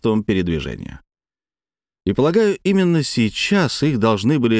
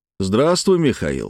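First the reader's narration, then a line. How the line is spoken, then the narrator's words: Plain. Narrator (Russian): сказал я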